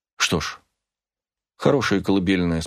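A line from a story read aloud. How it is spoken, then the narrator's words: Calm. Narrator (Russian): спокойно сказала Рахель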